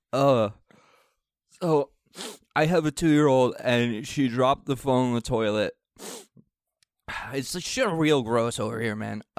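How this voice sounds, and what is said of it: Congested voice from a cold. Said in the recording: “I have a bad cold this week.”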